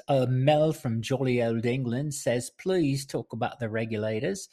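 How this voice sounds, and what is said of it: Attempted British accent. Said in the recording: “I don't know that she sounds anything like that. I don't know that that's a British accent or whatever the hell it is”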